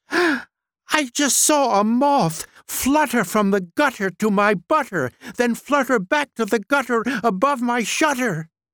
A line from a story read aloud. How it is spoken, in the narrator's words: Dutter shouted excitedly